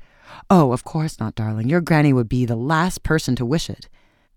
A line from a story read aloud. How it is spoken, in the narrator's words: Welland hastily declared